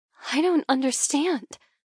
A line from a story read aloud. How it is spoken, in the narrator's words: I murmur, stupefied